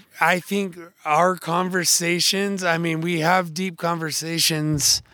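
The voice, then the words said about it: Hoarse, worn-out voice. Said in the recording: “my voice is gone ... I'm super tired”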